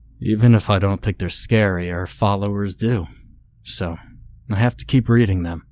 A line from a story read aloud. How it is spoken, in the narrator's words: Christopher stated flatly